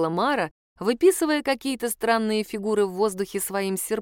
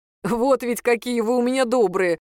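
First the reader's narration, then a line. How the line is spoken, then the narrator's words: Laughing. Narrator (Russian): рассмеялся Юра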